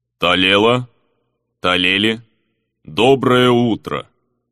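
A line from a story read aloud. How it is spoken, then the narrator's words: Calm deep bass. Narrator (Russian): невозмутимо пробасил слуга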